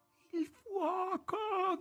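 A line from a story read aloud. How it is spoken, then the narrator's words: Terrible shout. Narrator (Italian): gridò con voce terribile Margherita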